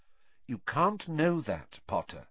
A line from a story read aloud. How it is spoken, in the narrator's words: said Professor McGonagall, quite kindly